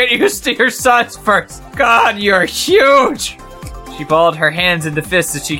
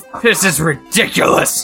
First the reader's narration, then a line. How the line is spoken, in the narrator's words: he snarled